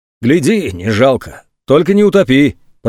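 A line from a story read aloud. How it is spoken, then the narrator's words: Deep bass voice. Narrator (Russian): пробасил тот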